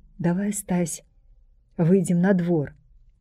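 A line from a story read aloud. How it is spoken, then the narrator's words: Quiet whisper. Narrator (Belarusian): ціха прашаптаў ён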